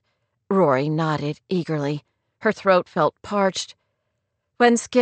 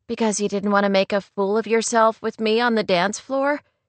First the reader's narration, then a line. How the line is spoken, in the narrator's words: she asked with a light laugh